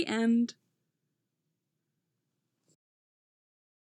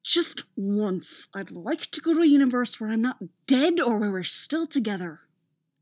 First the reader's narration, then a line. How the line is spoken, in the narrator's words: Apollo hisses through clenched teeth, scowling at his husband